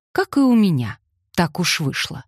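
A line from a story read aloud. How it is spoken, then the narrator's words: Plain. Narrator (Russian): сказал Колин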